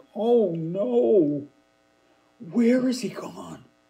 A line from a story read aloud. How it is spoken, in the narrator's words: Ruel exclaimed